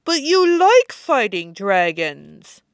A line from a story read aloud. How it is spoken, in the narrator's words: Llewellyn says, words slightly slurred from the way Sarah's squishing her face